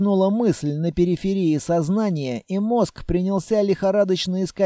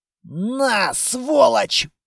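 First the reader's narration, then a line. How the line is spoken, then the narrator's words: Hoarse wheeze. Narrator (Russian): просипел кто-то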